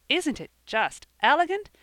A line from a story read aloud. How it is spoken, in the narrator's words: said Percy in the most pleased tone